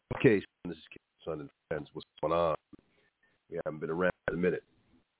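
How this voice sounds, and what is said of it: Stuffed-up, congested voice. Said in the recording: “a little cold, or maybe allergies. That's what I sound stuffed up.”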